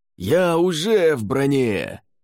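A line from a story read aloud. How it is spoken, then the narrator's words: Shout. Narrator (Russian): крикнул Латиш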